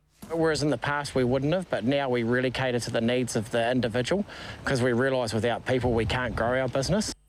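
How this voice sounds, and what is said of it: New Zealand accent. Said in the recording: “our New Zealand accent of the week this week”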